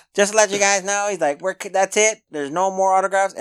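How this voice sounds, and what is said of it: Imitates another person's voice. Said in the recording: “I'm trying to do his voice.”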